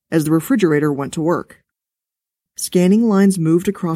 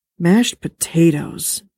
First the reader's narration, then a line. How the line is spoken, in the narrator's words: mumbled contentedly